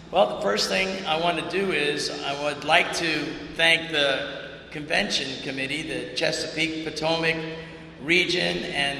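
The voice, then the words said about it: Raspy, strained voice. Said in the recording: “I've been losing my voice for like 3 months ... I keep getting raspy”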